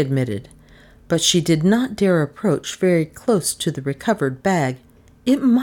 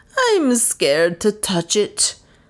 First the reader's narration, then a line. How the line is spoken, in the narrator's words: moaned Lizzie